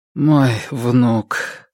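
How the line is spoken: Dejected voice. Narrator (Russian): произнес он упавшим голосом

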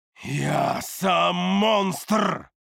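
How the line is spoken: Roaring with booming echo. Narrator (Russian): Взревел я видению, и мой голос завибрировал гулким эхом

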